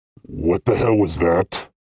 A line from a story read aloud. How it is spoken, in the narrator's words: Vel asked in a growl